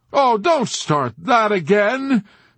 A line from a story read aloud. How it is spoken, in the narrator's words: Major Sanderson exclaimed with vitriolic scorn